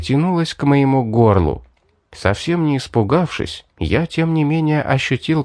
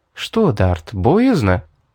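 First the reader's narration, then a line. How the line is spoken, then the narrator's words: Quiet question. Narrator (Russian): тихо спросила девушка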